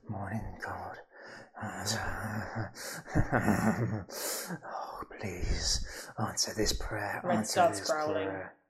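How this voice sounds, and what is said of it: Coarse, deep muttering male voice. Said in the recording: “the mutterings of a man inside with a coarse, deep voice”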